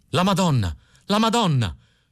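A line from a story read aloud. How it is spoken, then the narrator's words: Panicked shouting. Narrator (Italian): si mise a gridare Filippo il Bello, preso da un improvviso panico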